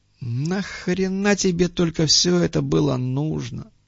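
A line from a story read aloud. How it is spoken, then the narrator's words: Weary question. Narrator (Russian): устало спросил Муха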